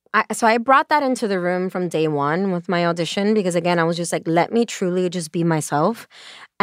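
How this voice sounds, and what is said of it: Brooklyn accent. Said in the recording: “this beautiful Brooklyn accent”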